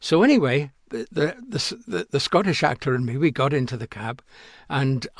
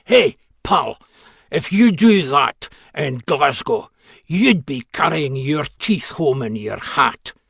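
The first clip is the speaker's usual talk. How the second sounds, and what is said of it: Heavy Glasgow accent. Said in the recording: “he really laid on, uh, you know, like a Glasgow accent”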